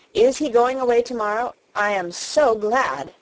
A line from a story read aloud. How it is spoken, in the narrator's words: cried Mary